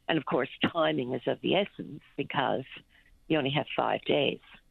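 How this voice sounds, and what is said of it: Unwell, weakened voice. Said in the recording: “You can probably hear my voice is not so great today ... I was really, really sick”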